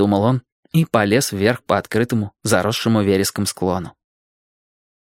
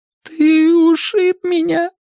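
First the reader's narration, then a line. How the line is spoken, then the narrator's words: Sobbing. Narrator (Russian): рыдал Мэтчем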